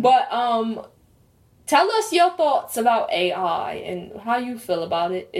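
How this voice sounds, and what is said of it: Put-on accent. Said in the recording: “my accent? ... I think your accent is fire. 10 out of 10.”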